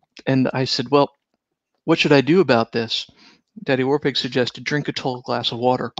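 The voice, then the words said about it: Slightly hoarse, strained voice. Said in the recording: “I'm losing my voice a little bit due to some extended role-playing sessions.”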